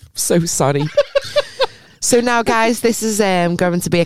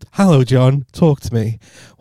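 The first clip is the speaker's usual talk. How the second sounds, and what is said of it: Soothing put-on telephone voice. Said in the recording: “That was more erotic than anything... Do you think it's soothing or... Me voice when I put like my telephone voice on.”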